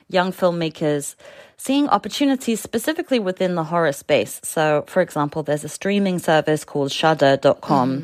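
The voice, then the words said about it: Noticeable non-native accent. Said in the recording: “My accent probably made that sound incomprehensible.”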